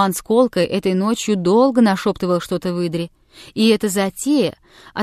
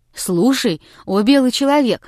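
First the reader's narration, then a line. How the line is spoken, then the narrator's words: Bursting out, unable to hold back. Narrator (Russian): воскликнул, не будучи в силах дольше сдерживаться, Муцак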